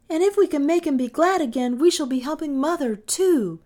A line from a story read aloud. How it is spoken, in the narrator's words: cried Kay, his eyes bright at the thought